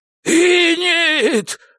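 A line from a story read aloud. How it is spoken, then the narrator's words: Full-voiced yell. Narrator (Russian): во весь голос завопил Альфред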